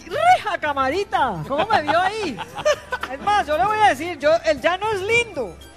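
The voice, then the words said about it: Put-on Llanos regional accent. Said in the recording (Spanish): “se le fue el acento ... A mí se me pegan todos los acentos.”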